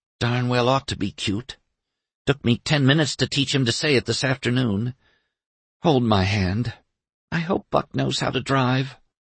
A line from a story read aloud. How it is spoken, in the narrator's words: To Doremus, Sissy whispered